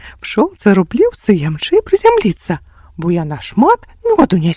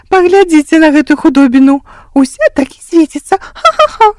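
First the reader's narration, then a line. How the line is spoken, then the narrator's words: Laughing fly. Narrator (Belarusian): засмяялася муха-лянюка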